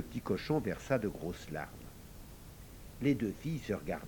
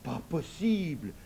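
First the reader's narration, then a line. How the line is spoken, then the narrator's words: Exclaimed. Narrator (French): s'écria Rachida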